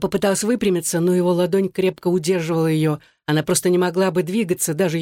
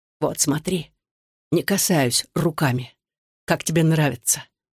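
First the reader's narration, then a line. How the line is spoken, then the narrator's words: Whispering in ear. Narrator (Russian): шептал он ей в ухо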